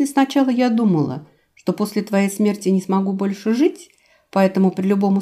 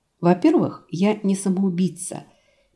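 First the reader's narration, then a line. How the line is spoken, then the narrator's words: Slow, carefully chosen words. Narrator (Russian): медленно, тщательно подбирая слова, сказала я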